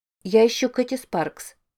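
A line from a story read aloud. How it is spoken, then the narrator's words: Plain. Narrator (Russian): сказала она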